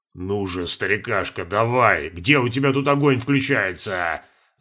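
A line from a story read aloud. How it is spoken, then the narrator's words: Angry muttering. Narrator (Russian): Злобно бормотал Валера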